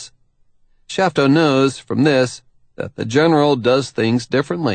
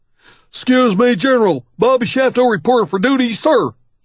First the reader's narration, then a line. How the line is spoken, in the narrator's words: he blurts